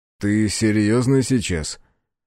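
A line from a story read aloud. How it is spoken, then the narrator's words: Scoffing. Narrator (Russian): хмыкнул он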